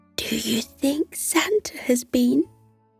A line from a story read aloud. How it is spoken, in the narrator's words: Elfie leaned down and whispered in his ear